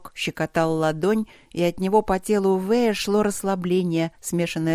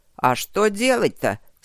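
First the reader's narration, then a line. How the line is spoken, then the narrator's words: Grumbling. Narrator (Russian): Снова заворчал Старов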